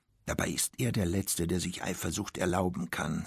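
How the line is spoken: Quiet, as if to herself. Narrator (German): sagte sie leise, wie zu sich selbst

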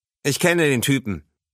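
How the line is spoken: Plain. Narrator (German): sagte er

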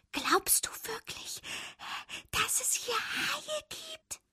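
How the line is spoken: Whispered. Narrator (German): flüsterte Fabius

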